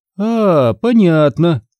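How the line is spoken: Laughing. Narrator (Russian): Тетя рассмеялась

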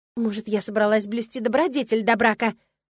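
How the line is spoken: Hissed. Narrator (Russian): зашипела я

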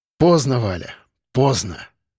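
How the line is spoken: Breathless exhale. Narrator (Russian): выдохнул

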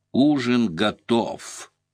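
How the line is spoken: Toothless mumble, turned aside. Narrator (Russian): Полуотвернувшись, прошамкала в сторону

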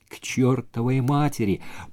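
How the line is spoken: Mutter. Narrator (Russian): пробормотал и Джонни

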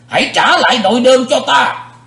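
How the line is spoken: Roaring angry shout. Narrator (Vietnamese): Sự diện quái ma dục rống lên một tiếng, quát

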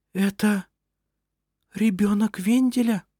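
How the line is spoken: Whispered. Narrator (Russian): прошептала она

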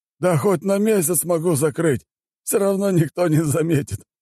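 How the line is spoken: Laughing gnome. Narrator (Russian): хохотнул гном

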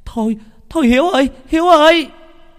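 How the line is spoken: Woman shouting. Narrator (Vietnamese): có một bà hét lên

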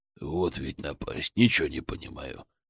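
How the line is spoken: Muttering. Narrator (Russian): бормотал он

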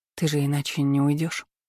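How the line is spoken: Tired sigh. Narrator (Russian): Устало вздохнула

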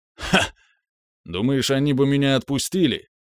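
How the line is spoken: Short laugh. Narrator (Russian): хохотнул

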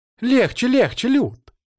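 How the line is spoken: Startled squeal. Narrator (Russian): взвизгнула Злата от неожиданности

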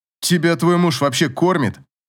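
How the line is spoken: Very irritated. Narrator (Russian): Это прозвучало очень раздраженно

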